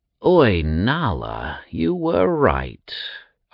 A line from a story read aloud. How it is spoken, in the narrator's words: Agros groaned